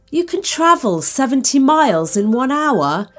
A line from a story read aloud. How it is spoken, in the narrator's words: cried, not believing what he was hearing